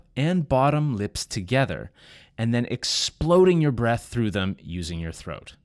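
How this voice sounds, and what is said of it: Canadian accent. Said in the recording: “I have a Canadian accent.”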